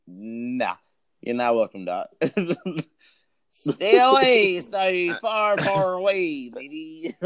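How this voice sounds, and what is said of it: Imitates another person's accent. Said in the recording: “Conor McGregor accent”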